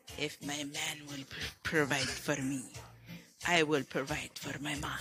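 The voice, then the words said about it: Put-on Russian accent. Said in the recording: “Can you say that now with a Russian accent?”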